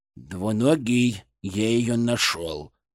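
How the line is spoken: Whisper in ear. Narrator (Russian): прошептал он мне на ухо

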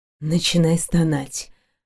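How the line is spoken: Whisper. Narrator (Russian): прошептали его губы

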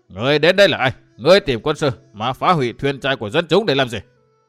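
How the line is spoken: Loud shout. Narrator (Vietnamese): Người huýt sáo lại hét to

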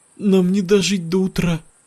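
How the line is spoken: Weak voice. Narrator (Russian): слабым голосом сказала

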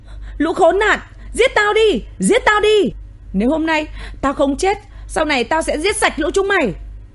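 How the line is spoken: Tearful, screaming rage. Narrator (Vietnamese): Tuệ An đôi mắt đỏ hoe, nước mắt lã chã gào thét

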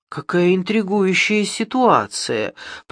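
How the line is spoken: Mutter. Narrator (Russian): пробормотал он

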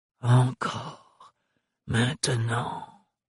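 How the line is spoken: Murmur. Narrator (French): murmura Farouk

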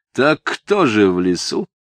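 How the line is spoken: Foreman asking mockingly. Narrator (Russian): насмешливо спросил бригадир

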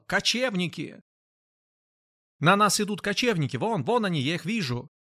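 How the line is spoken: Loud shouting. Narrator (Russian): громко кричал

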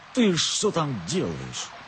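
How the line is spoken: Plain question. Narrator (Russian): спросил барин

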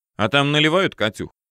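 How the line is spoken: Amused snort. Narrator (Russian): хмыкнул

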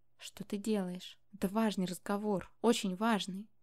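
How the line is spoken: Whisper. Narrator (Russian): я прошептала

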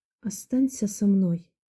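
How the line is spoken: Soft speech. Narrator (Russian): тихо сказала

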